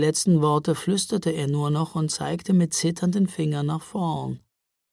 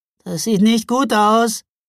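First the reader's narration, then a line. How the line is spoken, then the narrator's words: Whining. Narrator (German): jammerte Micke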